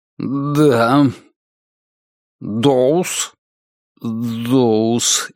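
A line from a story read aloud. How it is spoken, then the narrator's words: Strained, barely audible. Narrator (Russian): еле выдавил он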